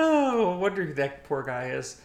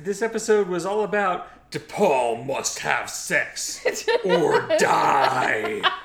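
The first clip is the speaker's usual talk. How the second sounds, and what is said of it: Mock TV trailer announcer voice. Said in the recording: “my UPN trailer voice impersonation. It's not very good.”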